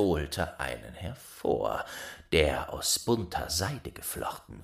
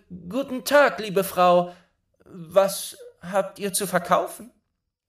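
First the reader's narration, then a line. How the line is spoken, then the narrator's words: Calling out. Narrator (German): Schneewittchen rief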